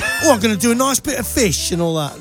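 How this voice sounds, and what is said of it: Mock cockney Jamie Oliver impression. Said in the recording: “Jamie Oliver, you know, the cook, the celebrity chef. He's a bit of a cheeky, cockney chappy... that accent's not really his”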